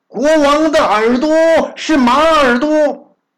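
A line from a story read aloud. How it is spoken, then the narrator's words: Loud shout. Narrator (Chinese): 他大声喊了一声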